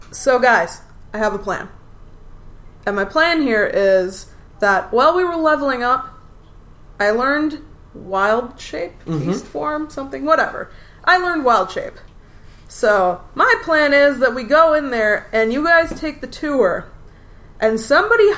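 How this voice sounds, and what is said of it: Character voice. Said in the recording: “I'm going to try in character voice this time because like last time you couldn't tell the difference.”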